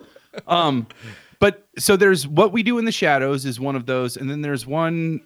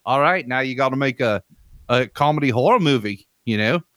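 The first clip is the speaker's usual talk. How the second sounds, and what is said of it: Attempted New Zealand accent. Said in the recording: “as a New Zealand filmmaker ... that's probably not the right accent ... that's pretty close”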